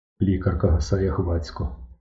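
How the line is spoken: Muttered. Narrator (Ukrainian): пробурмотів Кисельов

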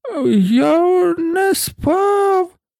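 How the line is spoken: Hoarse, weak voice. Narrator (Ukrainian): сказав охриплим, кволим голосом

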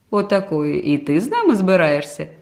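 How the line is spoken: Laughing father. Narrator (Ukrainian): засміявся тато

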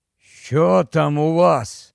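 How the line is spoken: Hoarse, forced out. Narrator (Ukrainian): вичавив він із себе хрипло

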